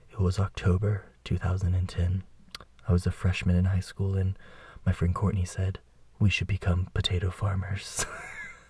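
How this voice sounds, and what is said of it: Dramatic storytelling voice. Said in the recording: “I should do a dramatic voice for the potatoes.”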